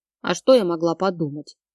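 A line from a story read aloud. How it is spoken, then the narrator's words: Offended grumble. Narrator (Russian): буркнула обиженно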